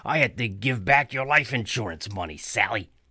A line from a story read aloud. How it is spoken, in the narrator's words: he growled